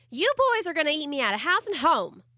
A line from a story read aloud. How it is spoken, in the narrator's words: Amber Lee cried out almost daily